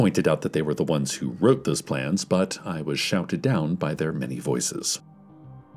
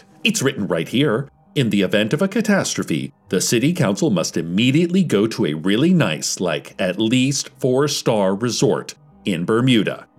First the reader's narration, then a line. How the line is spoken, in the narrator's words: they shrieked